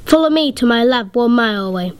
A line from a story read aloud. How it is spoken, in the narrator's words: a scientist flew down and shouted